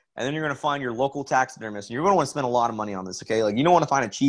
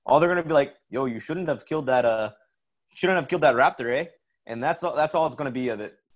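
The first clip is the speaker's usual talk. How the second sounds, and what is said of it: Put-on Canadian accent. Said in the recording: “thank you for sharing your Canadian accent with us. That was top notch.”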